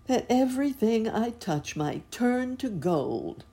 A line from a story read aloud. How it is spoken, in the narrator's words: said King Midas with a sigh